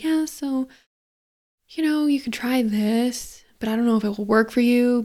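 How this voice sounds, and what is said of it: Quiet, small, unconfident voice. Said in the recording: “I'm slouching. I'm like so small. My, my voice is quiet”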